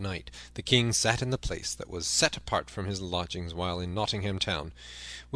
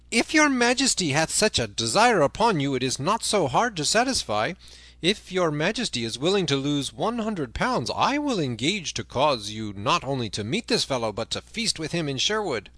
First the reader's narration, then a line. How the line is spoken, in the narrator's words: Then up spoke Sir Hubert of Gingham, laughing